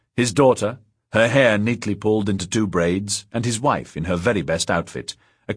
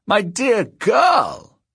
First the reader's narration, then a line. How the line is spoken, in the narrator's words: cried